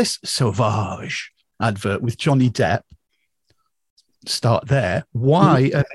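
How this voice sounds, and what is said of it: Usual voice. Nothing is said of it.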